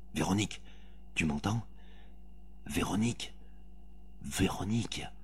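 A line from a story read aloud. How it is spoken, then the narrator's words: Very quiet. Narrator (French): Il dit tout bas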